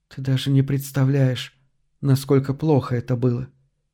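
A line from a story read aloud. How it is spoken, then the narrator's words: Quiet. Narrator (Russian): тихо ответила она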